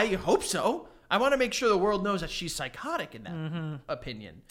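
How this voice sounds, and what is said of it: Usual voice. Nothing is said of it.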